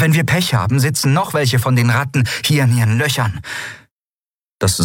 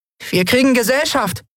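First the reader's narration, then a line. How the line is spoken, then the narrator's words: Called out. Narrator (German): rief sie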